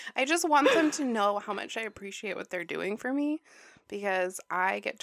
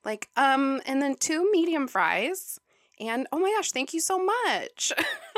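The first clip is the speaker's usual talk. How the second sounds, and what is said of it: Bright, overly polite customer-service voice. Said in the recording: “I do my customer service voice as my customer voice”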